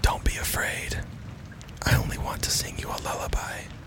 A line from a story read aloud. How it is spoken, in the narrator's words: the voice whisper